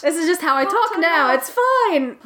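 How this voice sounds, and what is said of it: Put-on British accent, not Scottish. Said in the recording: “That's obviously not a Scottish accent. I'm still in UK mode.”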